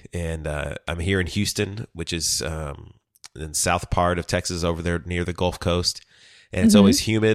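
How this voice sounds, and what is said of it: Nasal, husky voice from cold. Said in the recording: “I have a little bit of a cold right now, and so I sound way more nasally, ... husky. ... than usual”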